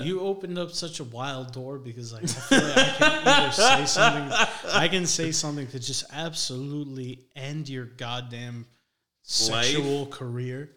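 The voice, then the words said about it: Spanish-sounding accent. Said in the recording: “you have like a Spanish accent”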